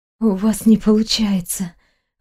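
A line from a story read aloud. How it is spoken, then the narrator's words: Anguished moaning exhale. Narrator (Russian): выдохнула со стоном, заламывая руки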